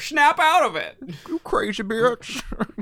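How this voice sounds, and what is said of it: Poor imitation of another person's voice. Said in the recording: “worst fucking Cher impression ever ... that was awful”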